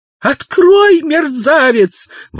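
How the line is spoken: Screaming. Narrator (Russian): вопила она

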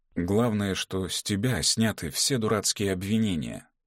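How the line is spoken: Tender, affectionate. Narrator (Russian): сказал он ласково

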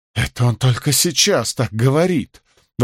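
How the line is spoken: Tearful old woman exclaiming. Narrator (Russian): воскликнула старуха со слезами в голосе

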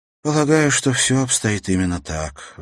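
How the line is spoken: Sighing. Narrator (Russian): вздохнула она

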